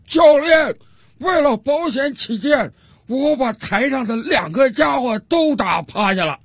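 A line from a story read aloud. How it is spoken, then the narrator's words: Loud shout. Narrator (Chinese): 大声冲着自个儿的教练喊道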